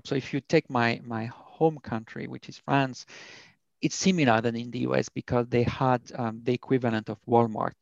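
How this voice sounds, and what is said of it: Thick French accent. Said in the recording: “I have a very thick French accent”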